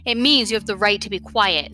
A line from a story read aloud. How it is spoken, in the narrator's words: the detective snapped